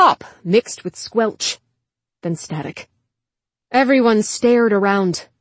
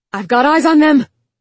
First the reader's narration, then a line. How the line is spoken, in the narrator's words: shouted a bot from another tower